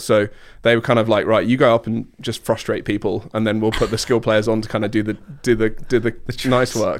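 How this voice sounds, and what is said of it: British accent with North American mix. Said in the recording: “you've retained your accent ... I've got a weird accent because I grew up with a lot of Americans and Canadians ... I have a very British but very Northern American culture kind of clash. So I have a bit of a weird accent as well.”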